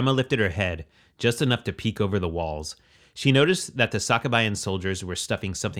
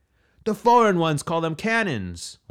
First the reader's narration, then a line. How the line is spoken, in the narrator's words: one of the surviving archers yelled